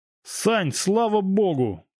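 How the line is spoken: Shouting. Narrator (Russian): крикнул Володька

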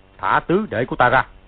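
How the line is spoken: Deep-voiced shout. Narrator (Vietnamese): Thanh Giáp Sư Vương Sử Thúc Cương trầm giọng quát lên

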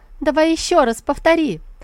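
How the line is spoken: Mocking laughing shouts. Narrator (Russian): Дворцовые служанки смеялись над ним и выкрикивали

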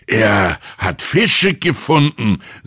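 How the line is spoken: Loud. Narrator (German): sagte er laut

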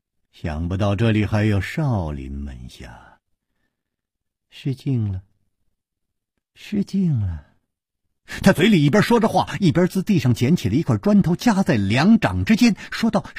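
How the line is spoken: Chuckling, slow speech. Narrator (Chinese): 带着笑脸的那个人咯咯一笑，缓缓地说

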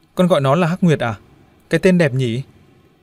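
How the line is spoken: Smiling. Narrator (Vietnamese): Huyền mỉm cười

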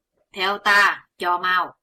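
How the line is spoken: Sullen irritated order. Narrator (Vietnamese): Đạo nhân hậm hực bảo Chí Tôn

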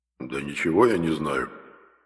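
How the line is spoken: Grumbling treasure. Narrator (Russian): буркнул клад

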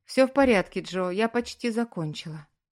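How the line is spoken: Composed after deep sigh. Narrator (Russian): Девушка глубоко вздохнула и, взяв себя в руки, ответила

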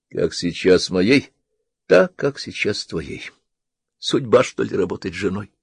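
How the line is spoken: Sad, soft laugh. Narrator (Russian): проговорила печально и тоже тихо рассмеялась

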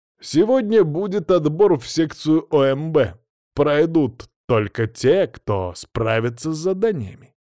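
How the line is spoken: Loud announcement. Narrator (Russian): громко объявил

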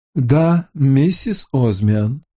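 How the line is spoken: Gloomy butler, plain. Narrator (Russian): Высокий, сутулый, мрачный дворецкий произнес

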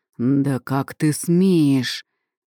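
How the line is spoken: Thundering voice in head. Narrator (Russian): прогремело в голове

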